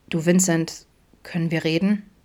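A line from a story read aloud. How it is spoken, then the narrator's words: Mumbling. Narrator (German): nuschelte Adam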